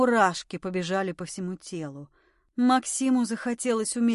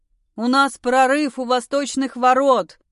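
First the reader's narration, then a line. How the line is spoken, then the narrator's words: Urgent shout. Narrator (Russian): прокричал ему Максим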